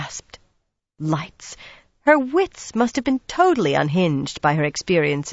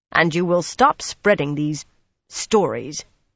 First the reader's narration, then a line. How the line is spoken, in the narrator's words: Pivara put in sternly